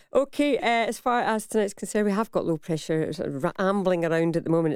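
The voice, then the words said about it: Scottish accent. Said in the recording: “Was that in a Scottish accent you said”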